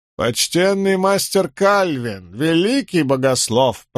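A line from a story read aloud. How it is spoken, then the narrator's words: Old woman's toothless mumble. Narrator (Russian): прошамкала старуха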